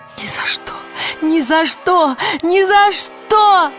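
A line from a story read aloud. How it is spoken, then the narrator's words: Shouting. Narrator (Russian): закричала она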